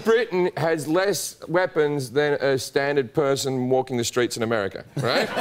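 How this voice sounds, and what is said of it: Usual voice. Nothing is said of it.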